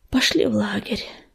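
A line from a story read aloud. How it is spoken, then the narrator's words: Forced out at last. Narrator (Russian): выдавил он наконец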